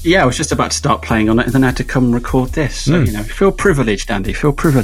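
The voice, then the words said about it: Posh British accent. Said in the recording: “I could tell as soon as I heard that accent ... every British person you have on there is interesting ... what posh twat is this? But that's me. I can't help that.”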